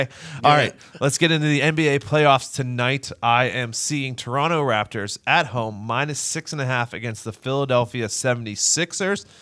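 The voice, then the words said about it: Pittsburgh Yinzer accent. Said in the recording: “it's this Yinzer accent. It's very, it's a very lazy way to speak.”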